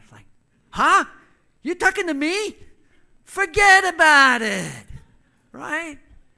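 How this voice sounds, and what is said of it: Put-on New York accent. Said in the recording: “this woman has like a, a New York accent”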